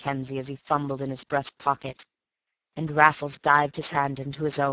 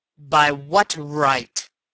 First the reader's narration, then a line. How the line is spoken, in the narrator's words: roared Raffles in a ringing voice